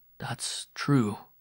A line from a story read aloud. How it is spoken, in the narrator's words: Miron muttered